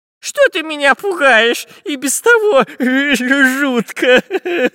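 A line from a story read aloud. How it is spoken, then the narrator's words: Whimpering whine. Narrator (Russian): Захныкал Дырка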